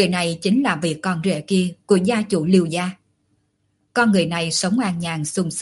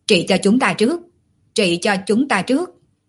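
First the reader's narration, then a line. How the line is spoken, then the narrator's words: Crowd clamoring. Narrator (Vietnamese): Đám người bên ngoài vốn đang nhìn chăm chăm, vừa thấy quả nhiên hữu hiệu liền lập tức hò hét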